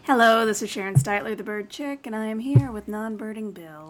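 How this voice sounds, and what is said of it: Calm, soothing public-radio announcer voice. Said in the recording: “The hell are you talking like ... in my NPR voice ... in a very calm, over-medicated way”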